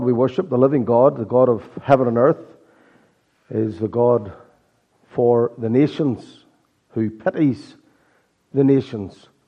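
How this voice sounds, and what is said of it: Irish accent, hoarse croaky voice. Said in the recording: “Excuse my croaky voice... my Irish accent... I've been battling a sore throat and hoarseness all week”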